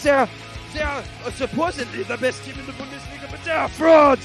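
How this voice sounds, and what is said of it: Put-on German accent. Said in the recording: “I've lost the German accent at the end of this.”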